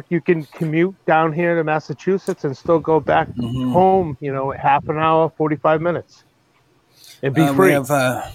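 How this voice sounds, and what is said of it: Loud Boston accent. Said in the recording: “love that loud Boston accent”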